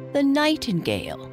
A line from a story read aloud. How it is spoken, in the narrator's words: said the old bullfinch scornfully